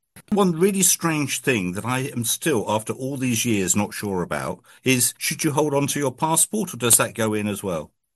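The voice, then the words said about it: Scottish accent. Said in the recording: “Being a Scot, you can obviously tell from my accent”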